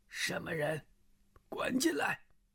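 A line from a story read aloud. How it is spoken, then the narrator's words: Hoarse barked shout. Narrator (Chinese): 厅里一个嗓子嘶哑的声音喝道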